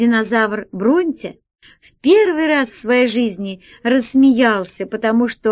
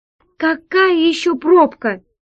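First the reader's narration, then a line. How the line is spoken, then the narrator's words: Exclaiming. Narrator (Russian): воскликнула Алиса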